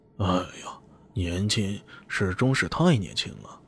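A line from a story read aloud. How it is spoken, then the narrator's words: Resigned sighing. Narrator (Chinese): 他们只好叹息啊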